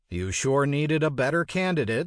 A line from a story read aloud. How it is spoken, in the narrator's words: said